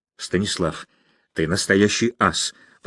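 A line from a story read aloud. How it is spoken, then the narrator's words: Stunned breathless. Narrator (Russian): потрясенно выдохнул Гуров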